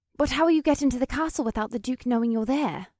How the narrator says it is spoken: Alyssa asked in a worried tone

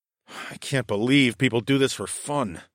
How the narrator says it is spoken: I mumbled, as I spun on my heels and ran

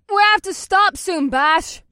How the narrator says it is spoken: Mahini shouted through the driving snow

